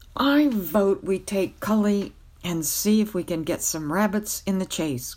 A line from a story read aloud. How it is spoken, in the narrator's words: cried Wart